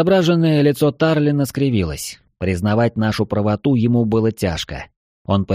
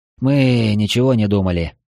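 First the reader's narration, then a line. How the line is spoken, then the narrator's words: Tired. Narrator (Russian): устало произнес я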